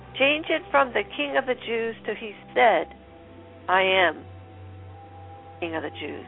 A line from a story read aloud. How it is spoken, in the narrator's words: Pilate replied